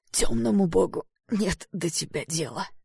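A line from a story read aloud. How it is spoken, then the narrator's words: Hoarse rasp. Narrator (Russian): прохрипел Эштон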